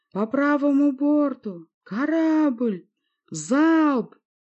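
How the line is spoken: Yelled. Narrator (Russian): заорал я

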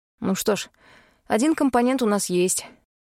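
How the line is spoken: Sighing. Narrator (Russian): вздохнул Пит

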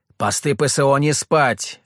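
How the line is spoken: Barking. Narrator (Russian): рявкнул

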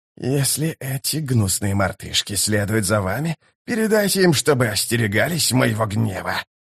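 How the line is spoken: Hissing. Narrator (Russian): прошипел Искарал

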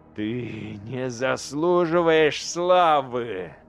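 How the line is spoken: Growled. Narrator (Russian): зарычал лорд-командор

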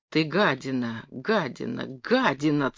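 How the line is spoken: Hissed through teeth. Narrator (Russian): цедил сквозь зубы

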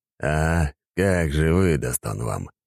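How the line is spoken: Scoffing snort. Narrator (Russian): хмыкнул Дурин

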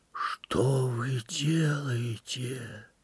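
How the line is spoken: Quiet mumble. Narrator (Russian): тихо пролепетал Михаил Иванович

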